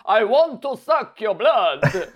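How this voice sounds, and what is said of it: Dracula-style vampire accent. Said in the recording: “Dracula accent”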